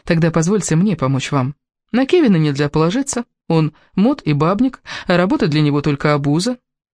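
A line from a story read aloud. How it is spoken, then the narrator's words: Calm. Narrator (Russian): сказала спокойно Элис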